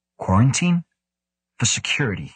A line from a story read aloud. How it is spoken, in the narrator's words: he says